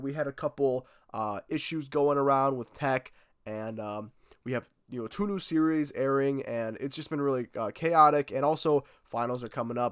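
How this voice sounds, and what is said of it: Sick, under-the-weather voice. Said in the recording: “I've been a little bit under the weather. You guys probably hear it in my voice”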